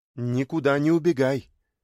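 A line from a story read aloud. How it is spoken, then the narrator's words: Stern command. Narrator (Russian): Хозяйка строго велела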